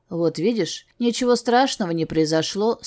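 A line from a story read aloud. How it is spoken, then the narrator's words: Plain. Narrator (Russian): сказал он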